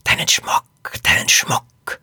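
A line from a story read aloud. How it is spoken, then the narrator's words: Hissed. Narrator (German): eine Stimme zischen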